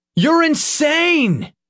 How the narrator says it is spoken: Nick yelled

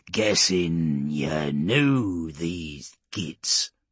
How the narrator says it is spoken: Urgork said, his voice now low and mocking

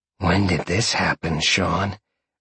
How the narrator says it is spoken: Roxy purred

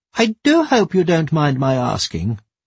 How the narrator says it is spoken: piped up one of the old ladies

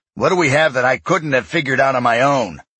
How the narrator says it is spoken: he growled in response

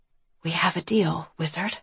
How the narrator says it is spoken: I whispered

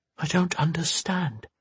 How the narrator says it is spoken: Rhone whispered

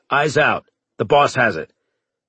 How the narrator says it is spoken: Heiser barked

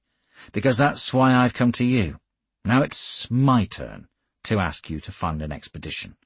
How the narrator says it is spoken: I said dryly

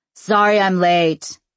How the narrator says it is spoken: a voice boomed

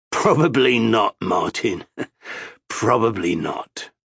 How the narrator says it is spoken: With a chuckle, Amos said

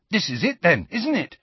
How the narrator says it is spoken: said Ron excitedly

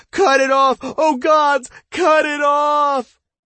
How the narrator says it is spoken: the man who was writhing on the ground and beginning to scream

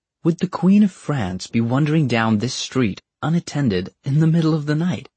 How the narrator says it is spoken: he said, calmly

